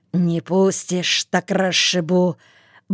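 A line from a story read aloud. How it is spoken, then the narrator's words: Mumbling. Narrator (Russian): бормотал Агей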